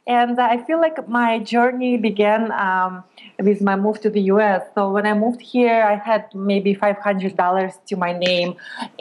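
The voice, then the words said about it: Slight Belarusian accent. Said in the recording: “I have a little bit of an accent, and I moved here from Belarus”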